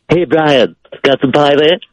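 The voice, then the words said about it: Cartoon character voice impression. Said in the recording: “It's Stewie from Family Guy. ... That's not that good of an impression.”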